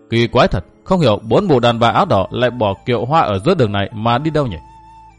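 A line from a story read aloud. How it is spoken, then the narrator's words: Muttering. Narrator (Vietnamese): Chàng lẩm bẩm nói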